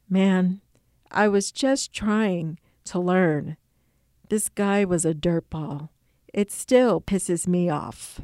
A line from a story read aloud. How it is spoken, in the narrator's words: he murmured